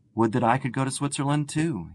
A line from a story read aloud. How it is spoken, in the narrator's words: he exclaimed